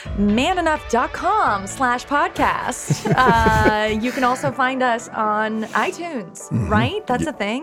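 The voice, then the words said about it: Announcer-style voice. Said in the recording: “you just go into your announcer voice ... My announcer voice”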